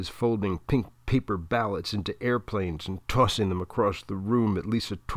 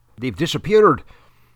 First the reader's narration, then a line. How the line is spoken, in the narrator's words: Dan Ryan says